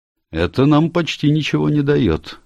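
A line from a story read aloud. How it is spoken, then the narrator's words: Remark. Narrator (Russian): заметил Келси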